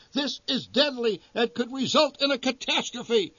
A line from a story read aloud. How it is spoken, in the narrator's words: shouted the voice on the PA system over the racket